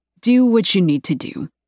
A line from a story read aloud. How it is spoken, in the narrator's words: he says